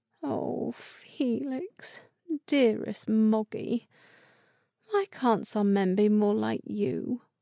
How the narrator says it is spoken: she muttered

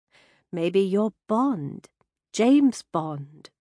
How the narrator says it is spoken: she added in a British accent

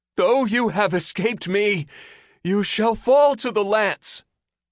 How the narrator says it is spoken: the youth cried out

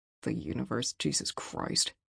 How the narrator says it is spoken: he muttered

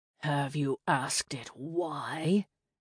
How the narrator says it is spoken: Asher drawled

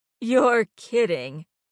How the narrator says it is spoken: Terry laughed

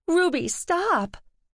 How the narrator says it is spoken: The slender, pink-haired woman grappled at Ruby's arm, striving to hold her back as she pleaded

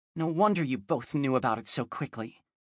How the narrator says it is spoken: Angelina muttered

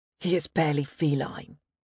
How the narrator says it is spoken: he snapped in an icy tone

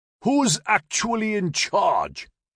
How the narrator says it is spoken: he yelled back

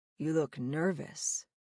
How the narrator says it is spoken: Lazar muttered

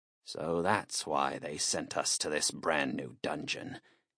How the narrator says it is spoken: he muttered in a low voice

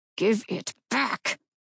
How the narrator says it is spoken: Mirani hissed

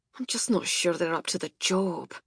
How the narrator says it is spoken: he muttered

